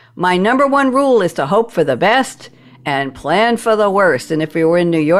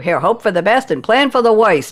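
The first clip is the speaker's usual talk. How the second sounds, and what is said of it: Put-on Brooklyn accent. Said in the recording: “I just gave it a Brooklyn accent.”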